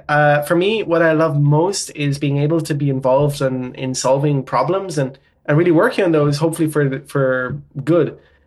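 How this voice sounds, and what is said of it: Irish accent. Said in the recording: “Irish accent”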